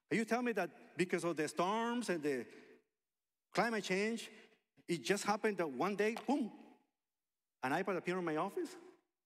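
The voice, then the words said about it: Sarcastic joking tone. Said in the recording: “I'm being funny. ... I'm being sarcastic”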